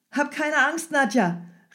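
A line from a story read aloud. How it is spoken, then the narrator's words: Calling out. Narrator (German): rief Michael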